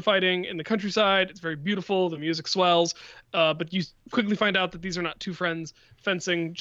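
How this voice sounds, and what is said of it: Usual voice. Nothing is said of it.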